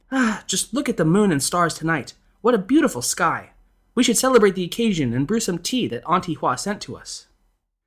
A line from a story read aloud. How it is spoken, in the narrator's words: the lady of the house exclaimed